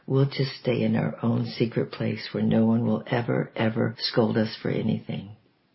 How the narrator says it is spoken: I whispered

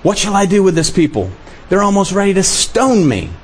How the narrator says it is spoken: Moses cried out to the Lord, saying

